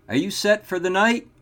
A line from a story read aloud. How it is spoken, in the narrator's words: He called out